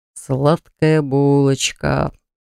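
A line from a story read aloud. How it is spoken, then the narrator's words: Drawling. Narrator (Russian): протянул он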